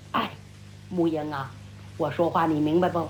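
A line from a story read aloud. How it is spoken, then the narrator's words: Sighing. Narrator (Chinese): 晚上…叹息一声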